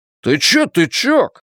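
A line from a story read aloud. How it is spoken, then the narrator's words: Shouting again. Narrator (Russian): снова крикнул Ллойд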